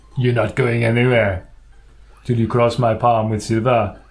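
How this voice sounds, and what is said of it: Put-on character accent. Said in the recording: “That's his accent.”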